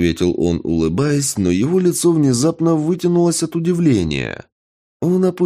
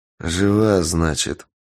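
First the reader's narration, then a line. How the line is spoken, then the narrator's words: Muttered. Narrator (Russian): пробормотал я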